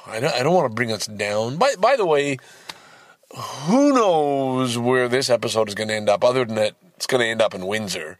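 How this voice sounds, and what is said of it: Loud, excited shouting voice. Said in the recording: “sorry if I'm shouting, I'm just kind of excited.”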